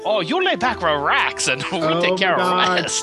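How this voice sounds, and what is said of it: Mock Asian accent. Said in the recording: “like with an Asian accent”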